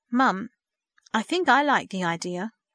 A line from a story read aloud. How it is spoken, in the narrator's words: Verity spoke hesitantly